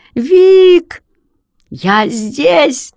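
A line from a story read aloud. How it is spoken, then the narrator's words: Hoarse shout. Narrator (Russian): хрипло крикнул я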